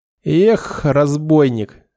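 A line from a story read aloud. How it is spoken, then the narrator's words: Snort, then laughter. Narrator (Russian): хмыкнула Задара и рассмеялась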